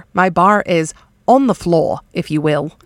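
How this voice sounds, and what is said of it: Put-on Australian accent. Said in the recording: “Why did I get an Australian accent when I did that?”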